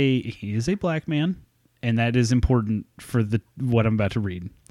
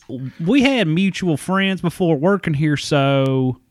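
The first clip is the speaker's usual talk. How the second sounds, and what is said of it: Exaggerated hick accent. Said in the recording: “I'll do dumbass hick accent for Ryan”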